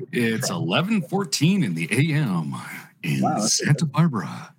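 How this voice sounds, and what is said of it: Smooth radio announcer voice. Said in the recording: “A good radio voice. ... Gotta be silky smooth.”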